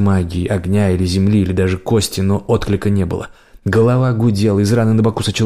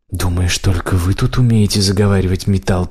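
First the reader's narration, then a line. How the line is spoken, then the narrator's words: Hissed. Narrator (Russian): прошипел фаранец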